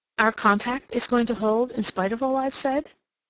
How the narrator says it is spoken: she asked

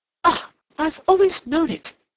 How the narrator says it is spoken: he cried

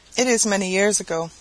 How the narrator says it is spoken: she said

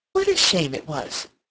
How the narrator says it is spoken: she exclaimed

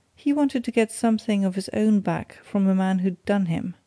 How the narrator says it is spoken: answered Glassdale, with a short laugh

